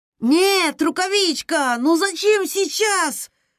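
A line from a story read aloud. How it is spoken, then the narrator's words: Crying out. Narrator (Russian): вскрикнул Эол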